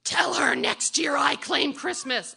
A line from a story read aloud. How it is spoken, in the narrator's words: she screams back